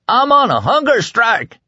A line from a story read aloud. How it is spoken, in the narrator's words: he yelled